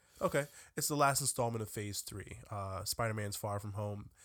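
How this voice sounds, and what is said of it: Sick-sounding voice. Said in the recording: “That's the sickness. You hear it in my voice.”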